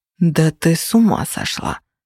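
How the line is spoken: Hiss. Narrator (Russian): прошипел Феникс

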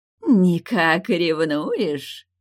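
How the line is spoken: Laughing. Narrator (Russian): Продолжала смеяться Тайгуча

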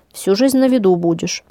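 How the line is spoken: Calm. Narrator (Russian): спокойно сообщила она

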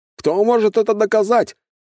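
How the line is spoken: Man's exclamation. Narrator (Russian): воскликнул мужчина

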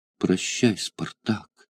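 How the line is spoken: Trembling voice. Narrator (Russian): произнесла дрожащим голосом бедная женщина

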